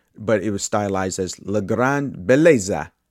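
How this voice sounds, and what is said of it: Attempted Italian-style accent. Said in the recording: “that was my attempt at an accent.”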